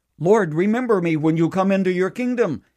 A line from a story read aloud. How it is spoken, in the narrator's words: One of them cried out